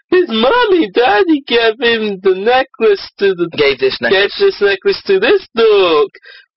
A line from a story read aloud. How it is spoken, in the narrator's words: Bones said mockingly